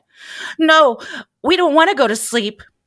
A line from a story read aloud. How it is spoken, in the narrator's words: they exclaimed at once